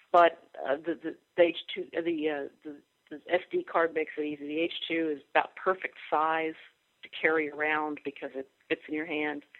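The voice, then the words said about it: Sick, unwell-sounding voice. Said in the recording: “I'm dying over here ... not in my podcasting voice”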